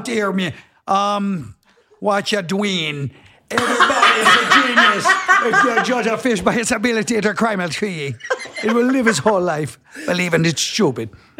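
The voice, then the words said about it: Attempted Jamaican accent drifting Irish. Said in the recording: “I want a damn Jamaican accent ... that sounds a little bit like the Scottish accent ... It was a little bit Irish ... It got a little Irish at the end”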